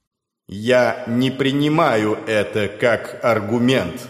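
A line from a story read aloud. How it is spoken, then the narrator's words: Calm, from within smoke. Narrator (Russian): спокойно произнес Дорфул из недр дымного облака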